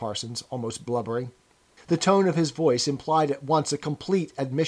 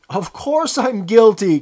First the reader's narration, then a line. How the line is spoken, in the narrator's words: cried Parsons